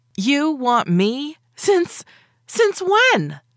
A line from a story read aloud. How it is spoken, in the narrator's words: I shrieked this question